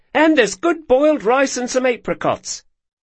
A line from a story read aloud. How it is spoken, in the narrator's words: she said cheerfully